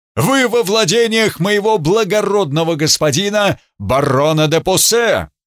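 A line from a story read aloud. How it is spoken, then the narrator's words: Shouted, man. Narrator (Russian): статный мужчина прокричал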